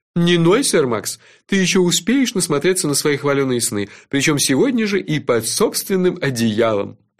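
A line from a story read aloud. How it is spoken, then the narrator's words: Laughing. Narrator (Russian): рассмеялся он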